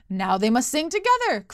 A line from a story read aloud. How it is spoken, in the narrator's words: cried the emperor